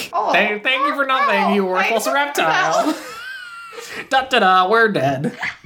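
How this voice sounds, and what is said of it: Jay Baruchel impression. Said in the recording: “doing a Jay Baruchel impression ... He's pretty good at it, though. It's not bad.”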